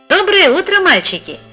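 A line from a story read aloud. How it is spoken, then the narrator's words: Cheerful. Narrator (Russian): сказал он весело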